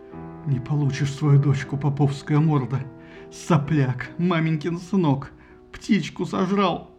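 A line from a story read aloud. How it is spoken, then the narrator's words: Muttering. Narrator (Russian): Тот бормотал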